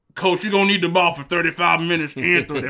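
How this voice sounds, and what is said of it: Old coach voice, mumbly mouthful. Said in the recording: “did a perfect impression of a coach with some like dip in his mouth”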